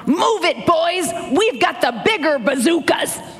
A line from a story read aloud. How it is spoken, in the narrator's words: a sergeant yelled